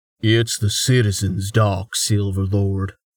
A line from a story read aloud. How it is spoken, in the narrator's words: he said gruffly